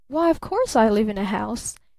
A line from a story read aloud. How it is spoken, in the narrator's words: laughed Barton